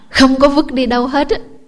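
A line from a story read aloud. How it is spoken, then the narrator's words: Roaring teacher. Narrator (Vietnamese): ông thầy ông thêm một lần nữa ông gầm lên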